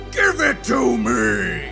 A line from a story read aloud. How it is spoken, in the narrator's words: he screams